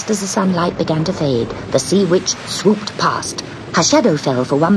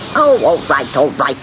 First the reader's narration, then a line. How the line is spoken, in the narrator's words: snapped the witch